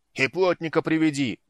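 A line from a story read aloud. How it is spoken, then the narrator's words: Belated call after someone. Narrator (Russian): запоздало крикнул ей вслед Люд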